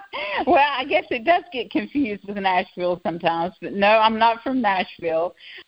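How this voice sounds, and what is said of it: Southern US accent. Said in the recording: “With that beautiful accent, are you coming from Nashville?”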